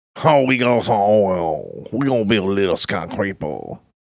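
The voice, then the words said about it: Put-on Louisiana Cajun accent. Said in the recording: “That's my Louisiana accent. ... That's your Cajun?”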